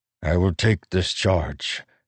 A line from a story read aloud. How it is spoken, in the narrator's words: Nail said softly, with honor